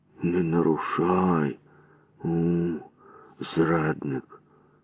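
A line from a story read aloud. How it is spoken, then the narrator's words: Muttered. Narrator (Ukrainian): пробурмотів я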